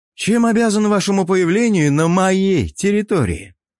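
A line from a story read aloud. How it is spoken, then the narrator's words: Loud. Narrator (Russian): громко произнес Ярвинин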